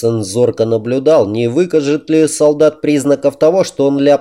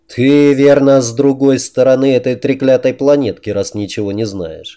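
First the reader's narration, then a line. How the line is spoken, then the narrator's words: Plain. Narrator (Russian): ответил он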